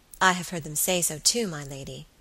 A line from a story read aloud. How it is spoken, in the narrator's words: said the girl quietly